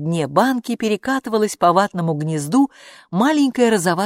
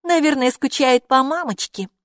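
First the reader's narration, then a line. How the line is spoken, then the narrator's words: Snort. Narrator (Russian): хмыкнула Хилла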